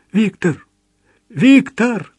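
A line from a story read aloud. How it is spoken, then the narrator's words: Pleading. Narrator (Russian): взмолился он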